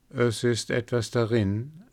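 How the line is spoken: Plain. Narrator (German): antwortete er

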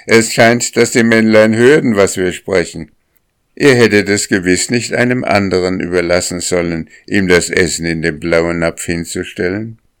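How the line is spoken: Laughing. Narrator (German): lachte die Sennerin

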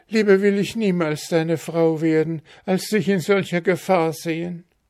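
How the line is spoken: Princess calling out. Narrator (German): rief die Prinzessin

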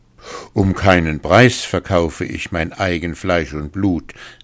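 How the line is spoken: Man calling. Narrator (German): rief der Mann

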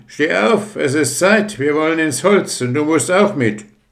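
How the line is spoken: Called out. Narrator (German): Da rief ihn einer an

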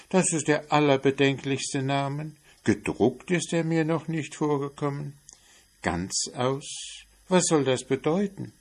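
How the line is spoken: Mouse calling out. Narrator (German): rief die Maus

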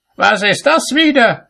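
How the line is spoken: Angry shout. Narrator (German): schrie er ihn an

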